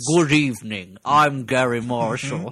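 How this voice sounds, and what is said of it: Gary Marshall impression. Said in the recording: “his Gary Marshall impression”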